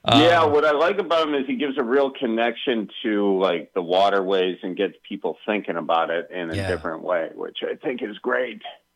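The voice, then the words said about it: Wisconsin accent. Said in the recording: “in your awesome Wisconsin accent”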